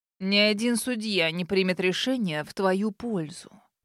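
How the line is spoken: Spitting growl. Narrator (Russian): прорычал Флойд, брызгая слюной

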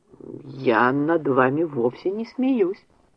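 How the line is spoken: Slow speech. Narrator (Russian): медленно произнес Джефф

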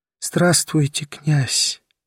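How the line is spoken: Whispered. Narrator (Russian): прошептала она

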